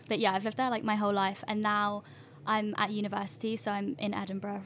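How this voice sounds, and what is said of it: British suburban London accent. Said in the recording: “where's that cute accent from? ... I grew up in like Greater London, kind of like suburban London”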